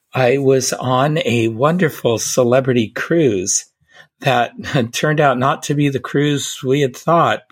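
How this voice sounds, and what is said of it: Rough, hoarse voice. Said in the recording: “my voice is a bit rough”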